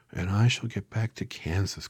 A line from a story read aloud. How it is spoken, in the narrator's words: cried joyfully